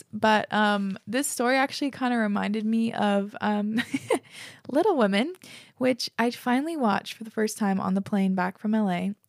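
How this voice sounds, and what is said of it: Slightly hoarse voice. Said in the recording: “My throat is getting a wee bit hoarse”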